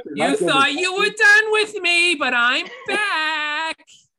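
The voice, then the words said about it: Imitates another person's voice. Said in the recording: “great Gilbert Gottfried impression”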